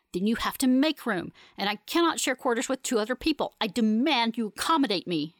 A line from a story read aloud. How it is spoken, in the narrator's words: she snarls